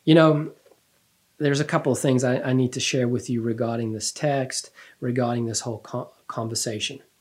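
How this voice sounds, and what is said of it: Slight accent. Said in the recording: “I have a little bit of an accent, I guess. And I say things funny. You know, contribute and aluminium. I say things in a weird way.”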